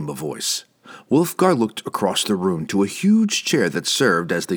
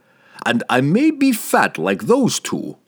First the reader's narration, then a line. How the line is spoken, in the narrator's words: Pook chuckled